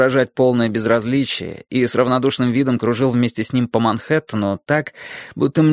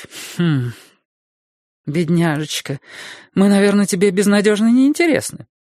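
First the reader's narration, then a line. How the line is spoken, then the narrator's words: Cheerful. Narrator (Russian): бодро сказала миссис Мильдербергер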